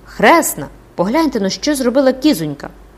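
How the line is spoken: Delighted child's exclamation. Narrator (Ukrainian): Захоплено сплеснувши рученятами, Беранжера вигукнула

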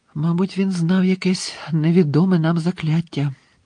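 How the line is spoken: Whispered. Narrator (Ukrainian): прошепотіла МакГонагелл

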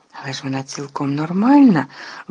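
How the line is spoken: Trembling exclamation. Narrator (Ukrainian): вигукнув Гаррі тремтячим голосом

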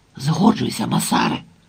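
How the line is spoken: Hurried male whisper. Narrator (Ukrainian): поспішно прошепотів він

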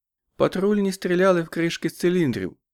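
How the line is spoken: Calm. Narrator (Ukrainian): спокійно промовила Амелія Вільямс

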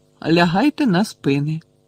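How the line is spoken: Calm. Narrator (Ukrainian): спокійно вів далі Фіренце

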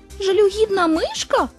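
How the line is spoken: Indignant small animal exclaiming. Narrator (Ukrainian): обурено вигукнула тваринка

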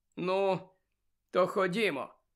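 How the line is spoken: Sad smile. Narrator (Ukrainian): сумно посміхнувся Сіріус

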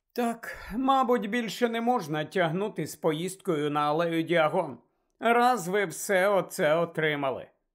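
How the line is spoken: Sigh. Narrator (Ukrainian): Зітхнула місіс Візлі

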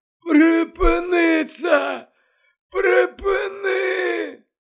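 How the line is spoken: Moaning. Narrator (Ukrainian): Дамблдор стогнав

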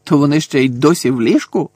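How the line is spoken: Grumpy grumble. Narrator (Ukrainian): сварливо буркнув Фред

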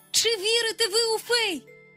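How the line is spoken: Loud call. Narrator (Ukrainian): голосно гукнув він

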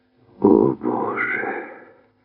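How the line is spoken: Groan. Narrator (Ukrainian): простогнав Шафер

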